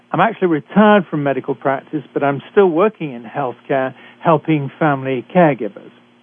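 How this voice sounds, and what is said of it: British accent. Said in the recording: “I'm a physician trained in Britain, as you can tell from my accent.”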